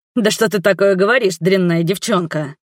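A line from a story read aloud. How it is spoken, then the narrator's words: Nervous chuckle. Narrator (Russian): Нервно хохотнул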